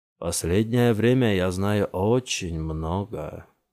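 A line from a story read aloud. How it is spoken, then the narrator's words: Drawling. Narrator (Russian): протянул Джамил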